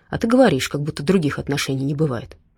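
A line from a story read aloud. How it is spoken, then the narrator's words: Satisfied snort. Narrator (Russian): удовлетворенно хмыкнул Дима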